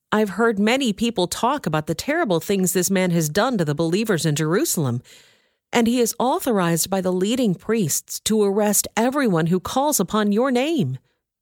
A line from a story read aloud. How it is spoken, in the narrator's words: exclaimed Ananias